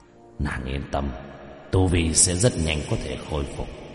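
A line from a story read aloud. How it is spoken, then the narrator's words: Murmuring. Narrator (Vietnamese): Lang Yêu lẩm bẩm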